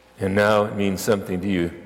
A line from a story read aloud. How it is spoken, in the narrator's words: replied George